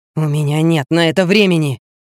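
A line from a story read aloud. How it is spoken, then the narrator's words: Growl. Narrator (Russian): прорычал он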